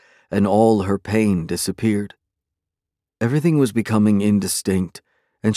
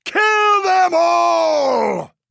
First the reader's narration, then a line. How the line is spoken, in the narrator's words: Hecarim bellowed